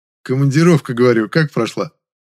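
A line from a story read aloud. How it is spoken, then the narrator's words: Slightly mocking repetition. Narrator (Russian): Чуть насмешливо повторил я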